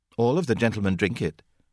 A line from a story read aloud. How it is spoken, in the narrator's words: Peppy said curtly